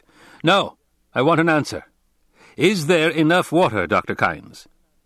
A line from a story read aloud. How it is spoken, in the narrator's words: The Duke barked